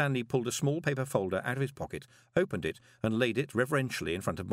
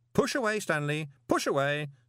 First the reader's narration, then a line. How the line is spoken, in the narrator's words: said Moist cheerfully